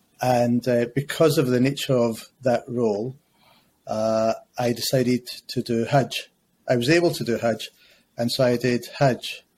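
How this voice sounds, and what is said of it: Scottish accent. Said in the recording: “if you can't tell from the accent ... back in Scotland”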